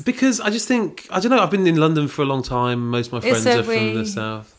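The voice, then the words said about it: Posh southern English accent. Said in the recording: “You've made yourself talk posh... It's an engineered accent”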